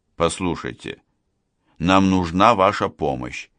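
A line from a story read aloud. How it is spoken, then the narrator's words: Conciliatory tone. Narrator (Russian): примиряющим тоном произнес лев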